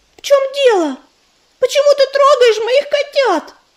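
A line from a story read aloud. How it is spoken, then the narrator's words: Mother shouting from afar. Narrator (Russian): Еще издалека закричала мать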